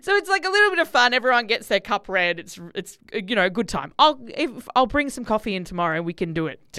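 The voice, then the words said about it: Accent briefly slipping in. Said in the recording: “There's the accent just came in just then. Just snuck in.”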